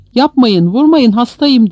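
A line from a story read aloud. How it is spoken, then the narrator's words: Shouting. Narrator (Turkish): diye bağırıyordu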